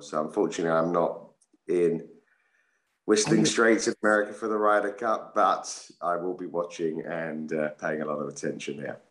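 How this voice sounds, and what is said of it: Slightly rough, dodgy voice. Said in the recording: “my voice is a little bit dodgy this morning”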